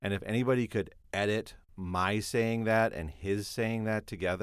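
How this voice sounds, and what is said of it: Usual voice. Nothing is said of it.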